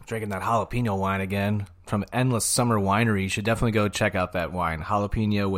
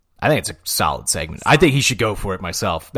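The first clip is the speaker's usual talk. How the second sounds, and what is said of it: Imitates another person's voice. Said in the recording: “my Shane Gillis impression ... Not bad. Not bad.”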